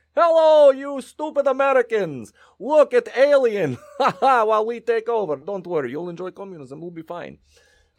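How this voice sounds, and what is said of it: Put-on Russian accent. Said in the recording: “He's Russian. I don't know why I went into Yuri Grabovich's accent all of a sudden.”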